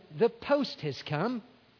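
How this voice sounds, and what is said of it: Imitated British accent. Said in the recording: “She says in her British accent,”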